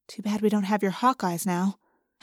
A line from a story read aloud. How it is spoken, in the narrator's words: I whispered to Tobias